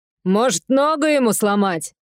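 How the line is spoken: Loud suggestion. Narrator (Russian): громко предложила она

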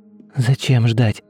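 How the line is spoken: Hoarse but firm. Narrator (Russian): Ее голос был хриплым, но твердым

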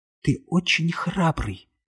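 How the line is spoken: Whisper. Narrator (Russian): шепнула она

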